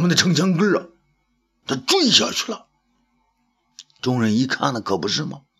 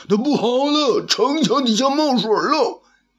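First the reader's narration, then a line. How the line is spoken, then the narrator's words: Hearty laughter. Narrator (Chinese): 东方朔大笑啊，哈哈哈哈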